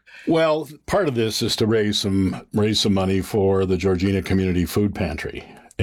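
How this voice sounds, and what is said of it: Big radio announcer voice. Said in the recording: “he's got the big radio voice.”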